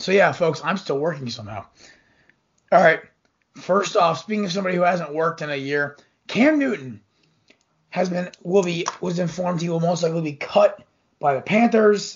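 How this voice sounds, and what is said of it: Slightly hoarse voice. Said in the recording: “my voice is still a little hoarse. It's uh, allergy season”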